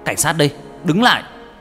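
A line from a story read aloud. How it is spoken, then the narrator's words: Shouting policeman. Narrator (Vietnamese): Minh giơ súng hét lên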